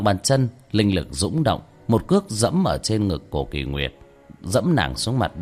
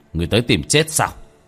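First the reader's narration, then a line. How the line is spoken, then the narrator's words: Cold shout. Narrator (Vietnamese): Tiểu Thất quát lạnh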